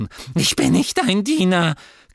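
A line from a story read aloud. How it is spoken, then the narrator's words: Squeaked. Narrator (German): quiekte er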